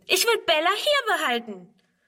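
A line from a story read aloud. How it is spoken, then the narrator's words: Screaming. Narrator (German): schreit Friedrun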